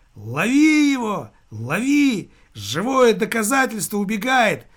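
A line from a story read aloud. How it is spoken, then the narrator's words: Shouting. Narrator (Russian): закричал Чинарев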